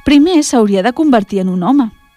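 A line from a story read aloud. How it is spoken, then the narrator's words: Father's sweet reply. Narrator (Catalan): va replicar dolçament el seu pare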